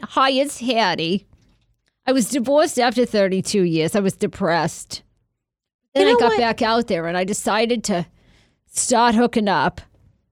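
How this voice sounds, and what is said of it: Old New York accent. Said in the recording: “she has like an old New York accent.”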